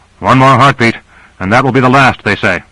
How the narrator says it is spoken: Grant called out above the reverberating boom

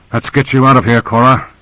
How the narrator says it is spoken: panted

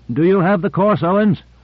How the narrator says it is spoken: Michaels called out

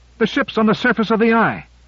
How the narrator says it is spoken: came the triumphant shout

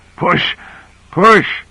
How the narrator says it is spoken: gasping out

